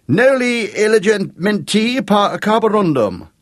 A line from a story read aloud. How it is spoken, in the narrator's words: He grinned at Jake and shouted dramatically